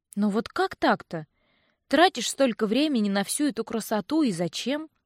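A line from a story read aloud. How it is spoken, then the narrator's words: Upset sigh. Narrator (Russian): Я огорченно вздохнула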